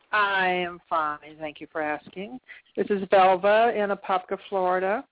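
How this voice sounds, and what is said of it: Southern American accent. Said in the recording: “I keep trying to hide that accent. It's just not working. ... we crazy Southerners”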